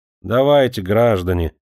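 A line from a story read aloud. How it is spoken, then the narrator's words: Dull, hurried voice. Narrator (Russian): тусклым голосом поторопила официантка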